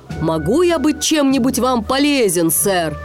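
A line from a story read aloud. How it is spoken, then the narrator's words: Shouting. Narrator (Russian): Сми закричал капитану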